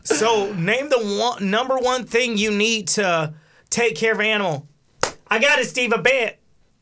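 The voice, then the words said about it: Imitates another person's voice. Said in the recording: “Good impression. ... I feel like I was watching TV.”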